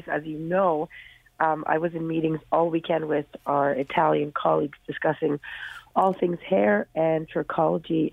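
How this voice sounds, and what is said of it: Damaged, strained voice. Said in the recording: “Oh, your throat. ... I have to apologize for my voice. ... I damaged my voice in the process and a little bit under the weather”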